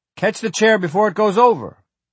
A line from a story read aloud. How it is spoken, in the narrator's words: Wireman roared